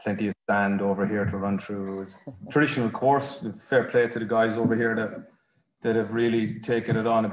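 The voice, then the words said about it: Irish accent. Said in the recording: “the accent in there that you are well and truly Irish”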